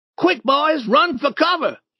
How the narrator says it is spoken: Tom shouted

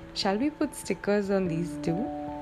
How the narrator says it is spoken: Vicky laughed mischievously and asked

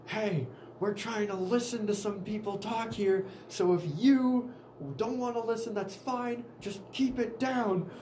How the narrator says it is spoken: yelled

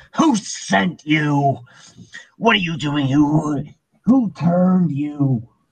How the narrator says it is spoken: screaming out

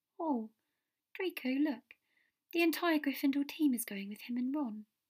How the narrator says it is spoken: she said meaningfully

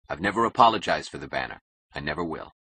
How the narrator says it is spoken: he said coldly

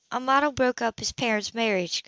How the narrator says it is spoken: told her quietly

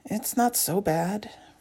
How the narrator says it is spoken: Rose says quietly

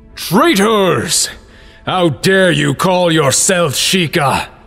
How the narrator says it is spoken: The necromancer's voice boomed in their heads, coming from everywhere but nowhere at once

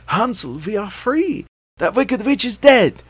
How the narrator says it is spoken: cried

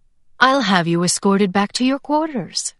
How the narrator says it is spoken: he said, his tone all syrupy kindness

